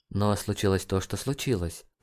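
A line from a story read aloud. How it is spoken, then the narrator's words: Mutter. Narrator (Russian): пробормотала Джейн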